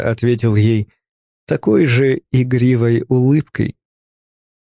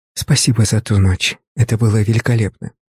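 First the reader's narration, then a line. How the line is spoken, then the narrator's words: Whisper in ear. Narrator (Russian): шепнула на ухо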